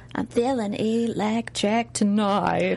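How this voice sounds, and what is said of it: Deep, sultry singer impression. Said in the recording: “I thought you were going to do an impression. ... Lana Del Rey? ... She sings so deep.”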